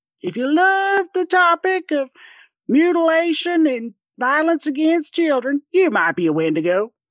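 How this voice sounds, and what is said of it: Put-on southern accent. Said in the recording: “I've got the southern accent down, I think ... you should have been an impersonator.”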